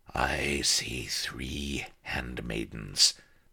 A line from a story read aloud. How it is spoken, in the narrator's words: the metal voice whispered